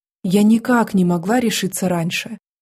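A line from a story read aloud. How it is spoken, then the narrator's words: Forced calm reply. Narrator (Russian): максимально спокойно ответила я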